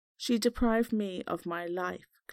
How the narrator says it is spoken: Glenn said

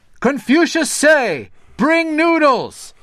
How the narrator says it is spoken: shouted the servant to the cook

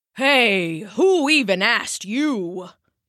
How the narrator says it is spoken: the bear grumbled

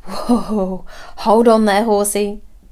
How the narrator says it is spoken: exclaimed, her eyes wide with horror

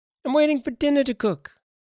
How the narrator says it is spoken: Ben answered in his piping voice

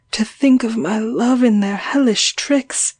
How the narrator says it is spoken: I groaned

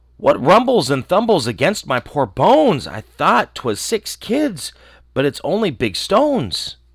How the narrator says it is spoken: Then he cried

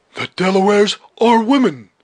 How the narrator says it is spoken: he exclaimed

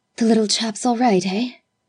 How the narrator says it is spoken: He spoke breathlessly, and with a swift, sliding inflection

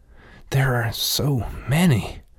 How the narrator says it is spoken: Rat wheezed, still bent over from the run

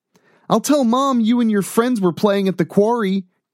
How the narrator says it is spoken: Greg exclaimed

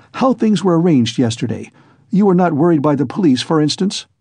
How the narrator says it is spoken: said Raskolnikov hastily

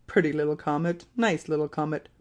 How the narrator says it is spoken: muttered Ben Zoof

